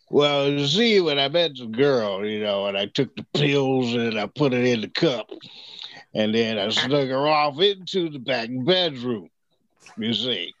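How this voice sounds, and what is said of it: Bill Cosby impression. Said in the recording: “Bill Cosby was probably the easiest one.”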